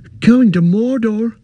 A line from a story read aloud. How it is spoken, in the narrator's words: cried Pippin